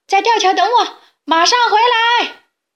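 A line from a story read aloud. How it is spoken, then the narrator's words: Shouting while running. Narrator (Chinese): 卡梅利多飞快地往回跑，边跑边回头喊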